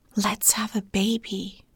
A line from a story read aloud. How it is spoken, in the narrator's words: I whispered